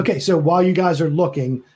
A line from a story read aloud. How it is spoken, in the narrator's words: the babe shouts